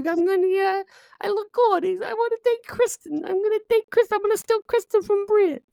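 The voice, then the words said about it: Strained Mark Wahlberg impression. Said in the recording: “doing an impression of Mark Wahlberg ... You sound like Mark Wahlberg with somebody holding his nuts.”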